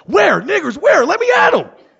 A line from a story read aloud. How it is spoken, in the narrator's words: frantically yelling